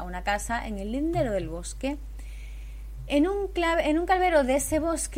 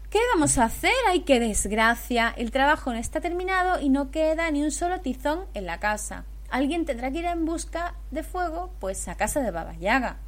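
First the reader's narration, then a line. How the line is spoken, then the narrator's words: Feigned innocent exclamation. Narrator (Spanish): Una de las hijas de la madrastra aparentando que fue sin querer, exclamó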